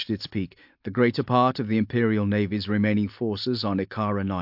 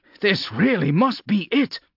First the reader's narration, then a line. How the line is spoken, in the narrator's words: Vaughn said over the roar of the aircraft's passing